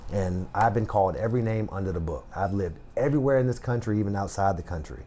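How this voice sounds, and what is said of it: Country accent. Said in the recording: “I have a country accent”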